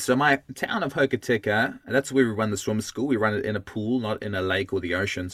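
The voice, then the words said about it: South African accent. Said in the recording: “as you can hear from my voice, this is not the Kiwi accent that you'd expect. I'm South African originally.”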